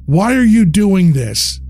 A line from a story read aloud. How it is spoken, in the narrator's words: shouted